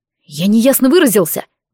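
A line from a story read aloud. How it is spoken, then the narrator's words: Rude interruption. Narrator (Russian): грубо перебил его Нориар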